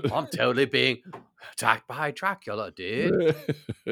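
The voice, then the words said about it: Laid-back surfer-dude voice. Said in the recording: “tell me what kind of English accent, you know, there were no surfers back in those days.”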